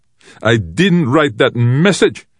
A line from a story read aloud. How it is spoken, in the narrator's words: Bernard shouted